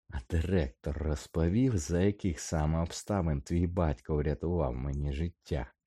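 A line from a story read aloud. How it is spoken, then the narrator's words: Hissed. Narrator (Ukrainian): просичав він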